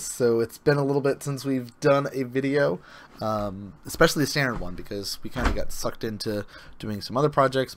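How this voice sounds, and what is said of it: Hoarse, fading voice. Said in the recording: “As you can hear, I've started to lose my voice”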